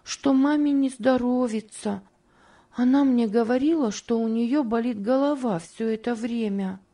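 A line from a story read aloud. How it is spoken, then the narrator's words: Timid addition. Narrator (Russian): Робко прибавила она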